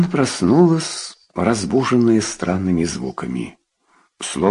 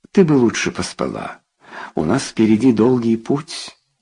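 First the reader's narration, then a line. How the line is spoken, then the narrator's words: Plain. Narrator (Russian): сказал он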